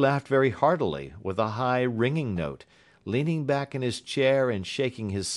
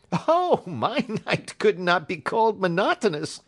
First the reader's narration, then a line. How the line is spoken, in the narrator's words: said he, and laughed